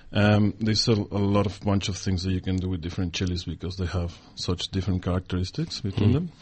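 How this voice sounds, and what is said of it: Exotic foreign accent. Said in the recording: “a really lovely exotic accent”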